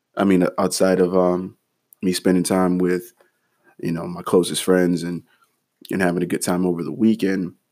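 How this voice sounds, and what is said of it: Drained, tired-sounding voice. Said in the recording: “hear it in my voice. It sounds uh, somewhat drained. I mean, it sounded worse yesterday, but um, it definitely sounds drained”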